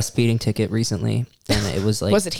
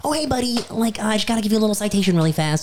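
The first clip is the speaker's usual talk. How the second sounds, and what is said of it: Friendly customer-service voice. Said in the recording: “put on your customer service voice?”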